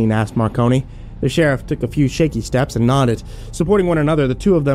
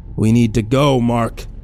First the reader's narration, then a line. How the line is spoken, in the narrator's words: the inspector said in his warning voice